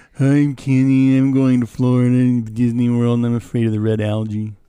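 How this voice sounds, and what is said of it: Spot-on imitation of another person's voice. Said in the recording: “do your Kenny voice again ... That was a perfect impression ... That's spot on.”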